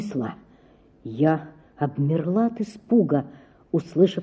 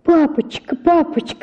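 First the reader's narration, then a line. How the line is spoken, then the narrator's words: Pleading scream. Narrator (Russian): закричала, умоляя его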